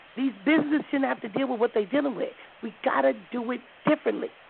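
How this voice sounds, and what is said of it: Strained, hoarse voice. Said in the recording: “I'm losing my voice.”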